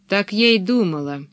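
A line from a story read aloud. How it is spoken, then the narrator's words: Said gloomily. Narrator (Russian): мрачно сказала Пеппи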